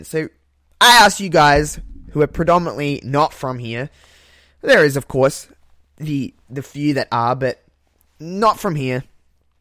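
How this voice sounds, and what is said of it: Thick Australian accent. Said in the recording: “people pick up on my accent. I didn't think I had a very thick accent, but I apparently do, so people know that I'm from the land down under ... I guess I just have a thick accent”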